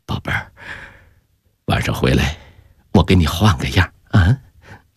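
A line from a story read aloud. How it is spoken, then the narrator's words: Soft, gentle. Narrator (Chinese): 轻声说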